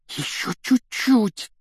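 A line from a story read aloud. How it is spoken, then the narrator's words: Breathless exhale. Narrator (Russian): выдохнул Рон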